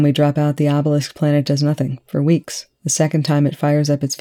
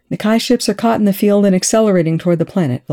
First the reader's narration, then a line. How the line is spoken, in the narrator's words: Volker called out